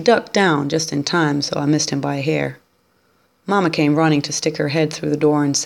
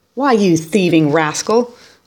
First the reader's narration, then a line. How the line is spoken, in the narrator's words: I shouted